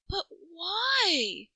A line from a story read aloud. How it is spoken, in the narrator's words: She wailed